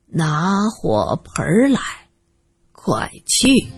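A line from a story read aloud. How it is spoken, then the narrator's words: Slow, leisurely. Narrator (Chinese): 老爷当时的声音有些慢，慢悠悠的说着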